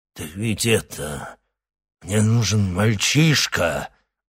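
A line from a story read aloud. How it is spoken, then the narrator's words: Low rumble. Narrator (Russian): глухо пророкотал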